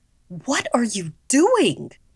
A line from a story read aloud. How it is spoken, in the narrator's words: my mother yelled at me